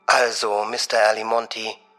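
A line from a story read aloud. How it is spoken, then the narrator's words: Very soft, almost purring. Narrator (German): sagte sie so leise, dass es fast wie ein Schnurren klang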